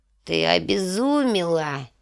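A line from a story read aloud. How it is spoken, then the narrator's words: Hoarse. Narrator (Russian): хрипло проговорила Божья жена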